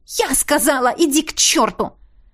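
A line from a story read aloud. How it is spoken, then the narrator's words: Angry yelling. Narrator (Russian): Заорала на него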